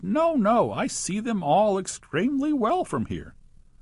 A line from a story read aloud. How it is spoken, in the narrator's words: The poor old dentist weeping in despair, he cried